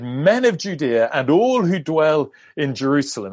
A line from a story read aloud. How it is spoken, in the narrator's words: Peter raised his voice and said